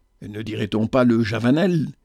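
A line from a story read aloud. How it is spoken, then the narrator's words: Murmur. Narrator (French): Florette murmura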